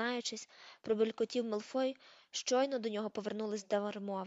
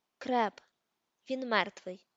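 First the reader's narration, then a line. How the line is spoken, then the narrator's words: Sharp retort. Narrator (Ukrainian): Різко кинув Рон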